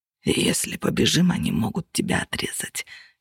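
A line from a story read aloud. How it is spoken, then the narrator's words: Hoarse breath under gunfire. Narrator (Russian): хрипло выдохнул он, еле слышно за грохотом выстрелов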